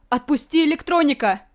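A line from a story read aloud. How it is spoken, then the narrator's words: Shouting. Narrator (Russian): закричала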